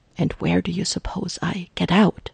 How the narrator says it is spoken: Jarvis whispers back hotly

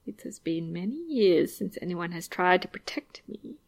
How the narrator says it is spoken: Viago says softly

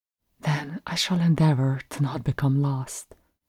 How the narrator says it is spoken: Max murmured

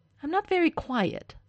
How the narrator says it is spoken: Stiles snaps

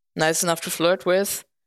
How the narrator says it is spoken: Bucky said, his voice drier than the Sahara

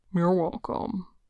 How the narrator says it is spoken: rumbles

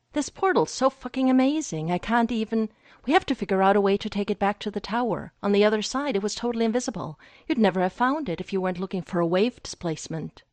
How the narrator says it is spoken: he said, eagerly grasping his shoulders

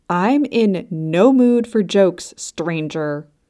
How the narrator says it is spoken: Polly growled

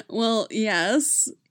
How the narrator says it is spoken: laughs

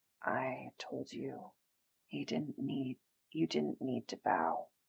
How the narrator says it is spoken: the blue one mutters

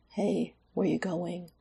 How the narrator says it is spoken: he mumbled

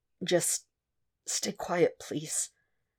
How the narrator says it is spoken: Cal said through gritted teeth

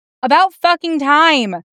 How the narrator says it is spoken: he yells down

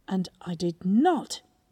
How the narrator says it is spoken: raising his voice

